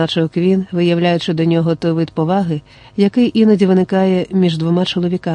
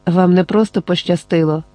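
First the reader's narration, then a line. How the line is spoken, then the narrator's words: Quiet. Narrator (Ukrainian): тихо мовив Джек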